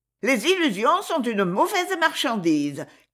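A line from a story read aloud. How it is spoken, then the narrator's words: Shrill proclaiming voice. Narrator (French): clama une voix criarde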